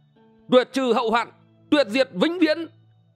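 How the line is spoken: Old man's sudden loud shout. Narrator (Vietnamese): Bỗng lão đổi giọng hét lớn

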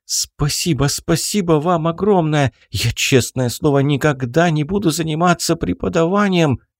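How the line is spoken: Overwhelmed babbling. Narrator (Russian): залепетал

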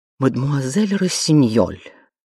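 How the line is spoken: Indignant. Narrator (Russian): возмущенно проговорила мадам

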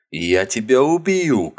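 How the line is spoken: Shouting. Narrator (Russian): кричал Богард

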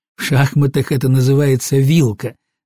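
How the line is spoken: Laughing. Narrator (Russian): засмеялся я

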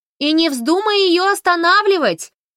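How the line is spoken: Shouted after someone. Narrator (Russian): крикнула ей вдогонку Фанни

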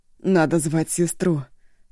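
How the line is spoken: Through gritted teeth. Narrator (Russian): сквозь зубы выговорила Шу

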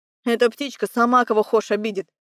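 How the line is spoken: Man grumbling. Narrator (Russian): Проворчал мужик

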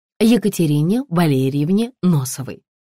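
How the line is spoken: Plain. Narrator (Russian): ответила Невзорова

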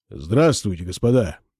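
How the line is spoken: Hoarse deep bass. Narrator (Russian): сказал он сиплым басом

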